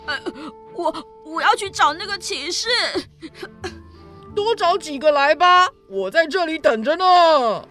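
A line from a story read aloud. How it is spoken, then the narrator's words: Pained, tearful boy. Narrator (Chinese): 少年被打得疼痛难忍，哭丧着脸说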